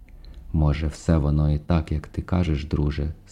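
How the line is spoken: Quiet sigh. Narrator (Ukrainian): стиха зітхнула

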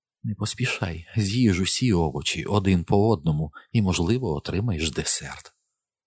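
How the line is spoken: Whispered in ear. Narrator (Ukrainian): Вона прошепотіла мені на вухо

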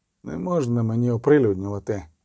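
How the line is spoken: Grumbled. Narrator (Ukrainian): буркнув відьмак

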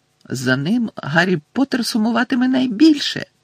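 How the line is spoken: Squeaked. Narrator (Ukrainian): запищав Добі

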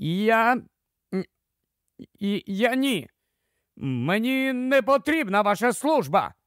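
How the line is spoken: Exclamation. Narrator (Ukrainian): вигукнув Фергюсон

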